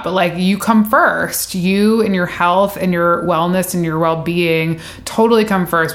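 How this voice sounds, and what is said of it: Choked-up, emotional voice. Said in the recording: “I'm like a little choked up,”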